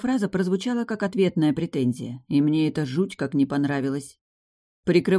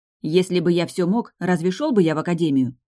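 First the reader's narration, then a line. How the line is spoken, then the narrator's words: Snapped back. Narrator (Russian): огрызнулась я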